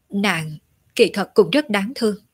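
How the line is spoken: Sighing, hesitant, low voice. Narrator (Vietnamese): Diệu Yên thở dài, do dự một chút, rồi hạ giọng nói

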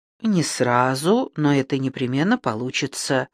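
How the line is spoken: Calm declaration. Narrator (Russian): спокойно заявил Макс

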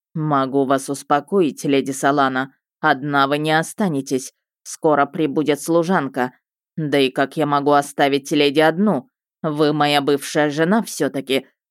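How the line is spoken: Arrogant man snorting. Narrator (Russian): хмыкнул надменный тип

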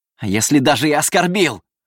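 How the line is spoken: Frantic yell. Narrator (Russian): заорал он, почти не слыша собственных слов

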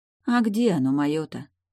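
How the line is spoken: Sighed. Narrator (Russian): вздохнула Яра

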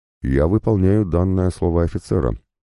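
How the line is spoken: Tired. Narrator (Russian): ответил устало

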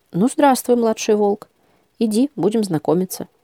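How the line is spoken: Even, calm voice. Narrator (Russian): ровным, спокойным голосом сказал

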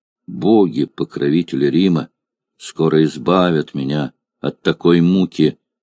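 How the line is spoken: Gloomy old man's reply. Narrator (Russian): мрачно ответил старик Симплициан

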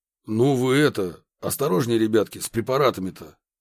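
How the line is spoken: Stern. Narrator (Russian): строго произнес Красильников

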